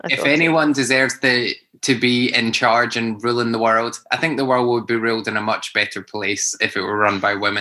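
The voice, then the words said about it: Scottish accent. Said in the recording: “my crazy 51. Scottish accent.”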